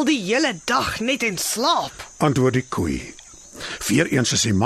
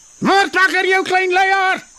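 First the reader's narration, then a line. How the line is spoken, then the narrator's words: Shouting. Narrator (Afrikaans): skree hy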